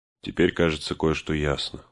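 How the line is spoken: Under the breath. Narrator (Russian): сказал он вполголоса

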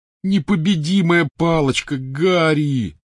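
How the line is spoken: Groaning. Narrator (Russian): застонал Рон

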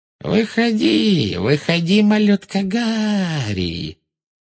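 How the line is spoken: Thin mocking sing-song, echoing. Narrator (Russian): пропела она тонким издевательским голоском, и ее слова отразились эхом от начищенного паркета

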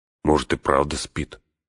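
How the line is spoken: Muttering. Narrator (Russian): пробормотал он

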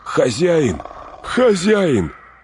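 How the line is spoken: Shout, voice returning. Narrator (Russian): крикнул Сэм, обретая голос

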